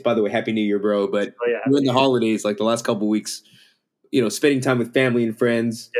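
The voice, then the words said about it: Slightly hoarse, sore-throat voice. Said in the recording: “my voice is a little off. I got a bit of a sore throat”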